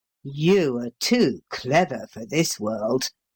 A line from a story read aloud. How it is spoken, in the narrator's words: growled Paul